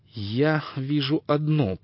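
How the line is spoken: Said through clenched teeth. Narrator (Russian): процедила она

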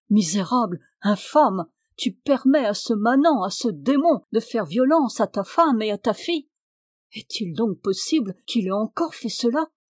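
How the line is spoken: Furious lord exclaiming. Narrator (French): s'écria le seigneur en se tournant furieux

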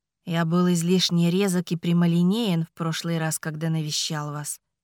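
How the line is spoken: Gentle. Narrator (Russian): мягко заметил он

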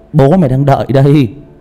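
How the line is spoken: Loud laughter. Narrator (Vietnamese): Cường cười lớn

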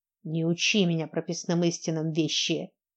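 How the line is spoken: Bird hissing. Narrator (Russian): прошипел птиц

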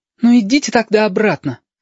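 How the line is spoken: Boldly snapping back. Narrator (Russian): смело огрызнулся сопливик и объяснил

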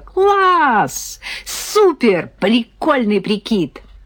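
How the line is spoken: Excited shriek. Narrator (Russian): Татьяна завопила

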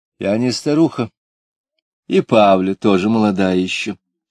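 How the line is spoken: Calm objection. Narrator (Russian): спокойно возразила Лида

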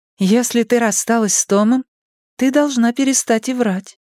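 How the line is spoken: Even voice. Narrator (Russian): ровным голосом ответила Кей

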